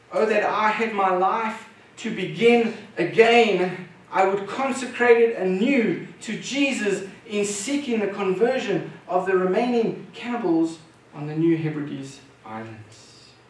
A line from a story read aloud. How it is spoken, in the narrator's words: at the end of his life, he exclaimed